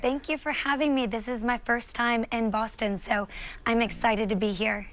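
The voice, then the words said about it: Southern US accent. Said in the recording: “I'm a South Carolina girl. If you can't tell from my accent, I love the South.”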